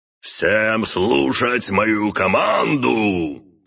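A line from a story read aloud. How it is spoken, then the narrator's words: Roaring magical voice. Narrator (Russian): проревел его магический голос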